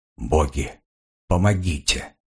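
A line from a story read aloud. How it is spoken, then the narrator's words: Whisper. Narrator (Russian): прошептал солдат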